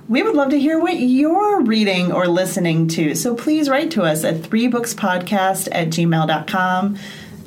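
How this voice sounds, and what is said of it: Chicago accent. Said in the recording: “that Chicago accent ... I can't even do it without a Chicago accent now”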